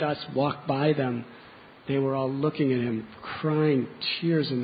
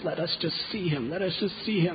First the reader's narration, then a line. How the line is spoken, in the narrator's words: they begged the jail keepers